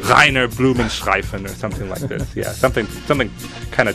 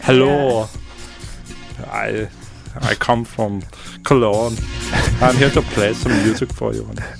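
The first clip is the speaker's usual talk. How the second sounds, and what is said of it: Put-on German accent. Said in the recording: “I was going to go for something German... That's good accent.”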